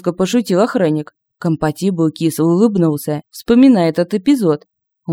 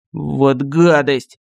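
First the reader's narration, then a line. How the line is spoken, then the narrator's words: Indignant hoarse rasp. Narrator (Russian): Возмущенно прохрипел компатибл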